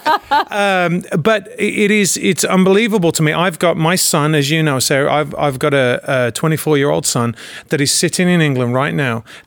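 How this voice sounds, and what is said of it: Foreign-sounding accent. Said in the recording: “the resident immigrant ... my weird accent”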